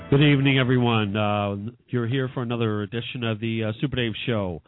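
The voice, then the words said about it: Hoarse, congested voice. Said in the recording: “Pardon my voice right now. I'm having some cold issues”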